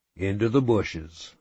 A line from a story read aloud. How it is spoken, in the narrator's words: I said